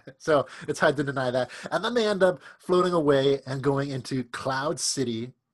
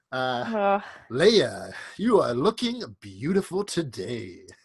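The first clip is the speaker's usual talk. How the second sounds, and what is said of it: Smooth Lando Calrissian impression. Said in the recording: “That's a good impersonation. That was pretty good.”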